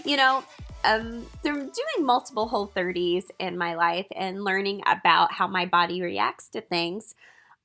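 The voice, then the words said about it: Stuffy, congested voice. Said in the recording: “Excuse my voice if I sound a little stuffy.”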